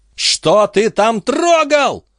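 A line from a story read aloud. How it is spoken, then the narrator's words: Piercing hateful scream. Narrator (Russian): пронзительно заорала Бобби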